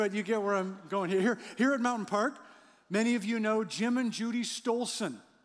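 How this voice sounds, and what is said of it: Usual voice. Nothing is said of it.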